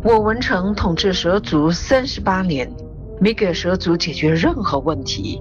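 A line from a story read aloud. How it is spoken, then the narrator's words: Sighing. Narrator (Chinese): 为首的一蛇族叹气道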